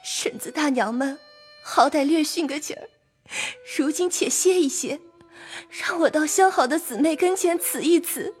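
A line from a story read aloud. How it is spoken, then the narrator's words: Tearful plea. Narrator (Chinese): 思琪因又哭告道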